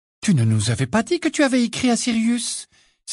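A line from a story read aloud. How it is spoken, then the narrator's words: Accusing exclamation. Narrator (French): s'exclama Hermione d'un ton accusateur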